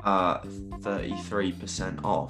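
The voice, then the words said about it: Put-on English accent. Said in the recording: “you've done it in an English accent. You've done all right there”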